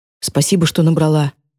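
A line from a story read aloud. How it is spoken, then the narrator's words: Strained choked voice. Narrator (Russian): говорит он сдавленным голосом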